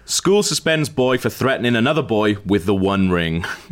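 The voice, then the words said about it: Newsreader voice. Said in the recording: “I'll read it in my best news voice.”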